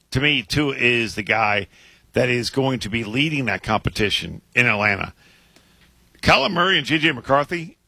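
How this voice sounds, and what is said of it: Hoarse, strained voice. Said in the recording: “I'm losing my voice. ... Your voice is struggling a little bit.”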